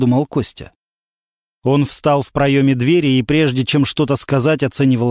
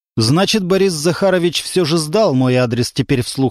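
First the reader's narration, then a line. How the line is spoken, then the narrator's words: Plain. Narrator (Russian): сказал Константин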